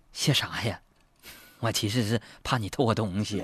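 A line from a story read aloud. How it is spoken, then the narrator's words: Shy muttering. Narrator (Chinese): 这小女孩红着脸嘀咕道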